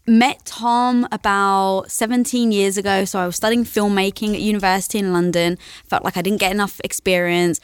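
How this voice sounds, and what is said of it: English accent. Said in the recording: “I love your accent. ... You're obviously from England.”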